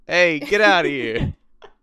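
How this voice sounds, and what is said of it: Put-on Brooklyn accent. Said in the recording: “a Brooklyn accent”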